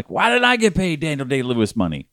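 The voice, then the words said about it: Screamed imitation of another person's voice. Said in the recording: “scream ... my impression of Gary Oldman”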